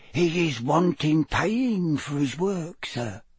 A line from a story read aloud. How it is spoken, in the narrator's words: Winky lowered her voice by a half octave and whispered